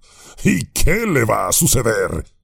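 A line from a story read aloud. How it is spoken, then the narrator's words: Laughing. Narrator (Spanish): rió Gorbak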